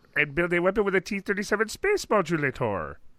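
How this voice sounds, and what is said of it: Marvin the Martian impression. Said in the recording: “his best Martian impersonation ... No, not that Marvin the Martian.”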